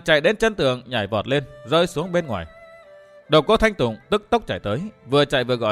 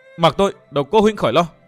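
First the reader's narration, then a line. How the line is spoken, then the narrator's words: Hissing shriek. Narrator (Vietnamese): Nàng rít lên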